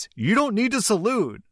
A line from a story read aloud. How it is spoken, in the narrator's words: shouted